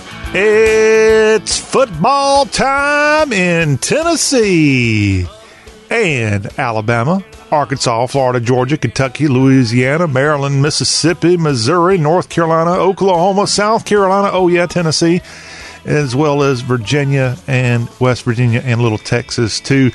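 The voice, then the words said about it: Impression of broadcaster John Ward. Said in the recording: “I'm channeling my inner John Ward by saying it's football time in Tennessee”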